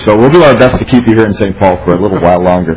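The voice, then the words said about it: Hoarse voice from a cold. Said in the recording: “apologize for my voice today. I'm battling a little bit of a chest cold.”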